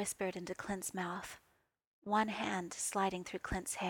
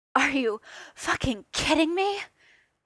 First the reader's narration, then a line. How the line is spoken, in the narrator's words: Clint gasped out